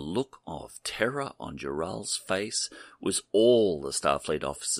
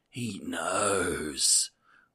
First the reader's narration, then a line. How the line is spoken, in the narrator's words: was all she could croak out through her fear-constricted larynx